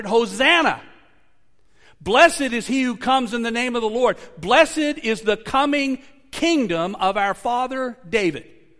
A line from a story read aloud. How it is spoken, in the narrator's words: those who went ahead and who followed shouted